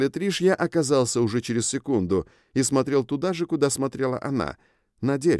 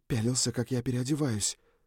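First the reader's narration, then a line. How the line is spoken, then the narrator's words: Whispered. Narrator (Russian): прошептала она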